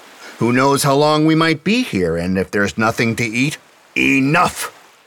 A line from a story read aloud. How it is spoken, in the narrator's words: Sagara roared